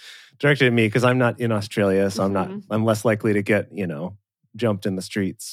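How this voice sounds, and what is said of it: Usual voice. Nothing is said of it.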